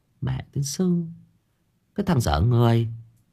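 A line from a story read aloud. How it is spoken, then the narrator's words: Muttering. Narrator (Vietnamese): bà ấy lẩm bẩm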